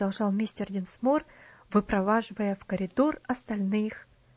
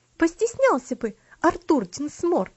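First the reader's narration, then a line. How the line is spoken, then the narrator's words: Indignant female exclamation. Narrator (Russian): с негодованием воскликнула Луси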